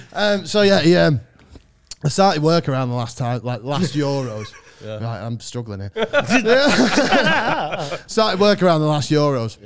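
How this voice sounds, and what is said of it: Mancunian accent. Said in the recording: “You've got a Mancunian accent. I'm like, yeah, I know I do.”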